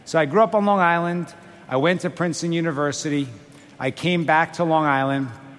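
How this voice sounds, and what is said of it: Long Island New York accent. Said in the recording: “my Long Island accent.”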